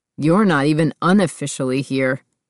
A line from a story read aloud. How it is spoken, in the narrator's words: he snapped back at her